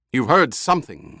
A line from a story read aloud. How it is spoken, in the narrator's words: the Baron snapped